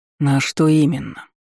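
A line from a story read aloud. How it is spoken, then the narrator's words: Hoarse, near-growling voice. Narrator (Russian): Хриплый, практически рычащий голос Вальгарда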